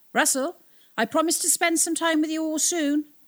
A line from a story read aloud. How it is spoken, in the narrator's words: he called out